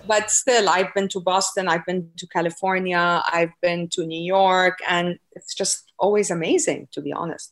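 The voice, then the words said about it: Speaks with a foreign accent. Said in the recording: “because of my accent.”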